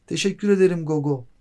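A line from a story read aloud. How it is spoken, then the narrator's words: Shouted. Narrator (Turkish): diye bağırdı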